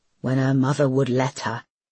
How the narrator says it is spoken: He grunted

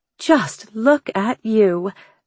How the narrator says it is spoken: Angelica exclaimed

